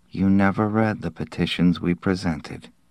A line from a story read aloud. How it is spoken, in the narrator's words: Giller said softly